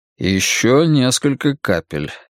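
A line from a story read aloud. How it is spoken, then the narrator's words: Even tone. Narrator (Russian): ровным тоном ответил он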